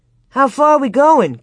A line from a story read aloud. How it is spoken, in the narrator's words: Cap shouted